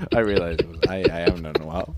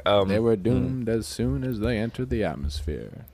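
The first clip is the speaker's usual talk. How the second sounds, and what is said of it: Morgan Freeman impression. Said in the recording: “What about Morgan Freeman? ... Morgan Freeman.”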